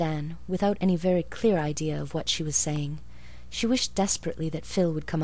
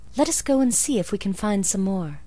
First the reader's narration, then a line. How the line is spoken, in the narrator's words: suggested Anne eagerly